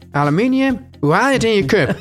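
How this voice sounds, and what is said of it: Mock Groningen accent. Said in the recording (Dutch): “als je een beetje Gronings accent hebt”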